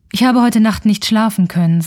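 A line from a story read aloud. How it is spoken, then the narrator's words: Plain. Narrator (German): sagte der Leutnant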